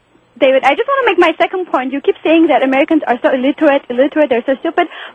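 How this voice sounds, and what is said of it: Noticeable non-native accent. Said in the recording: “She has an accent. ... your accent doesn't say so.”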